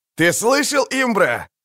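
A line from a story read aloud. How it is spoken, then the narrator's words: Booming, mocking. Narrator (Russian): прогремел в тишине насмешливый голос Бонарта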